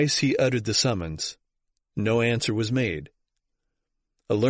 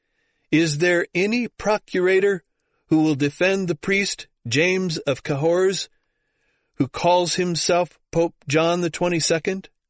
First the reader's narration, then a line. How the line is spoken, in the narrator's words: A brother of the order of Eremites advanced on the stage and cried aloud